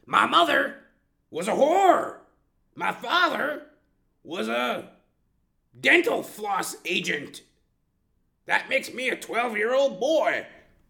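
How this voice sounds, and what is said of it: Bad Charles Manson impression. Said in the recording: “That was a bad impersonation. ... No, Charles Manson.”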